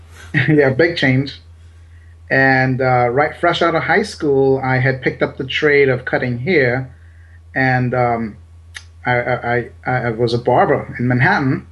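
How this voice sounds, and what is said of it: Slight Trinidadian Caribbean accent. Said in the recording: “I'm originally from Trinidad in the Caribbean ... So if you hear a little accent, that's why.”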